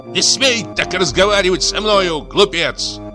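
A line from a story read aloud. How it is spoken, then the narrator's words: Shrill, high-pitched shout. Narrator (Russian): крикнул он тонким, визгливым голосом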